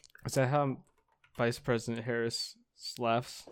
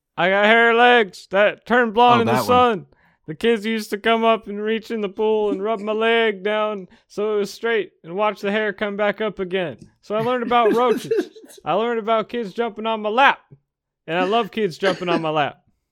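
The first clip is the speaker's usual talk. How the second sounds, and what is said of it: Imitates another person's voice. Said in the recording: “good Joe Biden impression ... That was super good.”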